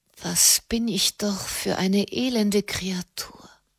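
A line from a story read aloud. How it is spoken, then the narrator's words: Whisper. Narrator (German): flüsterte sie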